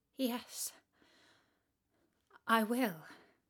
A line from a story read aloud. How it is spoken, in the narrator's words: said the little princess in a trembling voice